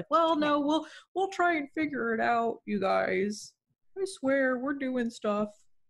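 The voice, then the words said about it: Imitates another person's voice. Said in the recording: “That's my Michael DeWine impression.”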